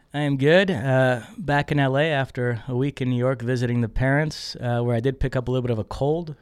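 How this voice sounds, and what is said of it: Raspy, hoarse voice. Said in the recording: “My voice sounds raspy today... my voice, I sound like Nas today. It's very raspy.”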